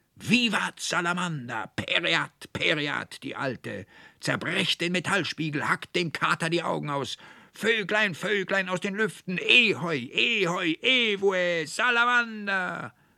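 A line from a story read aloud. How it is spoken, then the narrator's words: Three frenzied overlapping shouts. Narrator (German): schrien und brüllten die drei wie Besessene durcheinander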